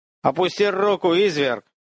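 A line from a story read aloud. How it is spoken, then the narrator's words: Shouting unfamiliar voice. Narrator (Russian): кричал незнакомый голос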